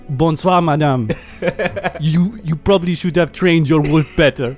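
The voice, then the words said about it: Terrible put-on accent. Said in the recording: “Your accent is terrible.”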